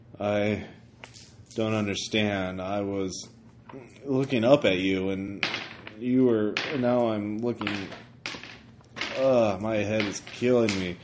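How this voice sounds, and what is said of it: Stoic Midwestern accent. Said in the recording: “now is speaking in a stoic Minnesota or stoic Midwestern accent”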